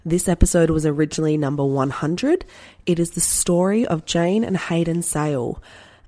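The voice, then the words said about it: Voice not at full strength. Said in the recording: “As you can hear, my voice is not 100% at the moment ... this amazing dulcet tone”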